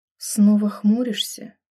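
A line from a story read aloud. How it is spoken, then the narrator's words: Quiet. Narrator (Russian): Произнесла негромко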